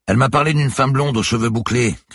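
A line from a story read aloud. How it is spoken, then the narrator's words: Shouting over strong wind. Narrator (French): cria-t-il pour couvrir une violente bourrasque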